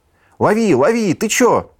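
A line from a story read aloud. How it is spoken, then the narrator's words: Bear shouting. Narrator (Russian): крикнул медведь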